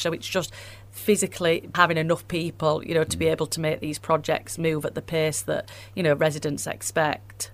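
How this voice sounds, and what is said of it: Wakefield Yorkshire accent. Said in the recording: “You've got a Wakey accent. You're from Wakefield, born and bred? ... It's a great accent”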